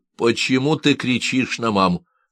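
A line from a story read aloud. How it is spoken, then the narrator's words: Loud question. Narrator (Russian): Громко, чтобы он слышал, спросил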